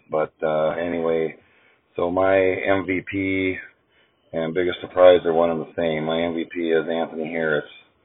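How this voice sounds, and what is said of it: Uneven, congested voice. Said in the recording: “I got a cold, so if my voice is a little hit and miss there”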